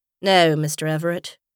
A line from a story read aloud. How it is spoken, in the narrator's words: replied Darrington calmly